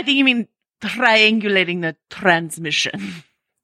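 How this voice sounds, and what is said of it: Inaccurate imitation of Naveen Andrews' accent. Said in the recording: “That's my best attempt at Naveen Andrews' not accurate accent. I'm not trying to do an accurate accent”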